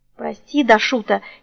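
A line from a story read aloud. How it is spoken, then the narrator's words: Barely audible. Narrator (Russian): еле слышно выговорила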